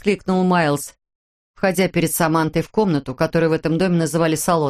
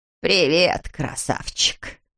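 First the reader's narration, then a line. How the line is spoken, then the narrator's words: Low creaky voice. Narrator (Russian): отвечала Морин низким скрипучим голосом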